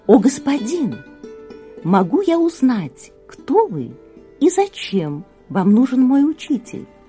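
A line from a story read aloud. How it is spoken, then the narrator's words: Very soft, polite. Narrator (Russian): очень мягко и вежливо спросил ему начальник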